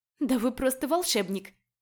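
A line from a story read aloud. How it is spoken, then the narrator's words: Awkward laugh. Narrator (Russian): рассмеялась я, чувствуя себя неловко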